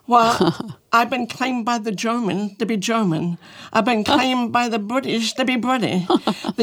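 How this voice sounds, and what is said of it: Distinctive, hard-to-place accent. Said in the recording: “my voice is different. I talk funny... You really have an accent... it's just different”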